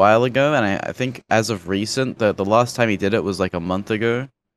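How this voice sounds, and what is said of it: Usual voice. Nothing is said of it.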